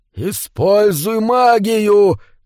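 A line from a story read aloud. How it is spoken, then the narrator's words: Inner voice shouting. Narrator (Russian): кричало что-то внутри Нью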